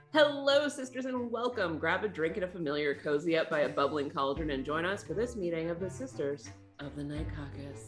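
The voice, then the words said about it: Radio announcer voice. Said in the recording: “put on my radio voice”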